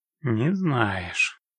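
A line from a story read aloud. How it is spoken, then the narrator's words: Disappointed drawl. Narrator (Russian): разочарованно протянул Геральт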